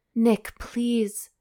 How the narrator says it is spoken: she moaned as shudders of near ecstasy began to rack her body

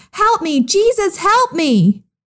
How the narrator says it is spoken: cried out

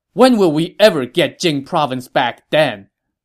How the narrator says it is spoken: Sun Quan shot down this objection angrily

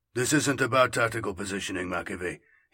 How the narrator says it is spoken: he muttered

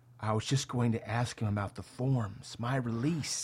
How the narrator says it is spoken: Helmet, whispering

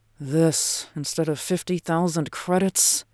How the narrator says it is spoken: murmured

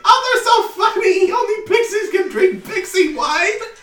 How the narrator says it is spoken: The pixies behind you just sort of giggle and say

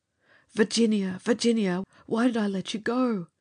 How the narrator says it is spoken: Charlie cried

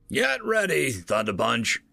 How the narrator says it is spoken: Trucker yelled over the comlink to Dremsel

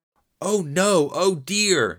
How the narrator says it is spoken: Nicki whimpered and moaned

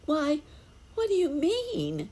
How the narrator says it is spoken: cried the children

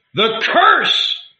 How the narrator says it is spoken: cried

